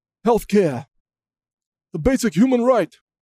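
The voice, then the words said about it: Imitates another person's voice. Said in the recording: “That's my impression of Bernie Sanders right there.”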